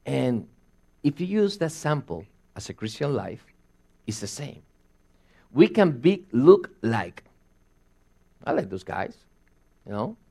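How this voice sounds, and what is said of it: Noticeable foreign accent. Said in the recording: “as soon as I open my mouth, my accent comes out, and they will say, you're different.”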